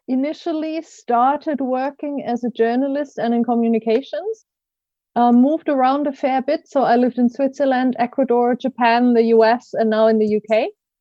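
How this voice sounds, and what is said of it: German accent. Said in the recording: “I grew up in Germany, in case you're trying to place my best of accent”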